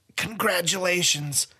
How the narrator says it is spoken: Sai wheezed

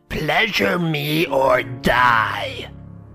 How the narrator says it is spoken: Her face was wrinkled into an evil snarl and she screeched out

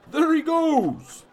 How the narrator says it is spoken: the man yelled

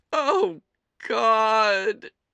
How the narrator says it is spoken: she moaned

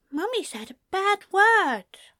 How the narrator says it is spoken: said in a small voice, a slight upturn to his lips

